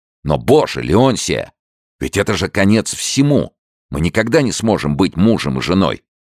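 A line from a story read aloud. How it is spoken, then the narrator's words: Anguished, distraught exclamation. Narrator (Russian): Генри в смятении и тоске воскликнул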